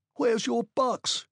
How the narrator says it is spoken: he cried

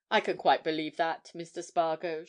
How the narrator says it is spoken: she said coldly

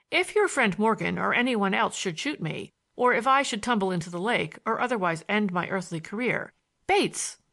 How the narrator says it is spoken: I spoke his name sharply

